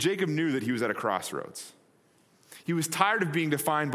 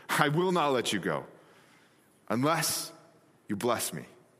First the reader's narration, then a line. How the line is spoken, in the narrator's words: panted